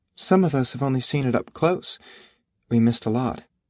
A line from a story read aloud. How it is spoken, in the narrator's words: Claire said wistfully